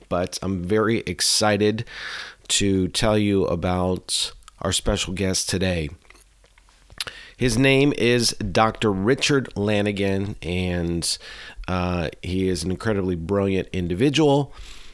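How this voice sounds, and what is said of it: Congested, hoarse voice. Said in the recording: “Please forgive my voice. I have been dealing with a little bit of a cold here recently”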